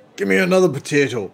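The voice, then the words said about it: Put-on Irish accent. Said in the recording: “Where did that accent come from? ... He's Irish.”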